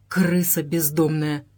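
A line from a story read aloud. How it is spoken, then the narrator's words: Muttered through teeth. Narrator (Russian): процедил сквозь зубы Андрей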